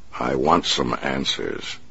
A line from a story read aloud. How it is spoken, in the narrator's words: the Batman replied